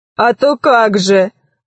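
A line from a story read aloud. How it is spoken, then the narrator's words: Booming laughing reply. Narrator (Russian): ответил Громозека и захохотал так, что космическая связь отключилась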